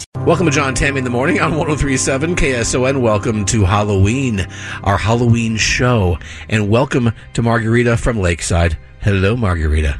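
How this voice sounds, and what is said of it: Spooky Halloween voice. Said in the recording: “I'm speaking in my spooky voice. ... it's very spooky.”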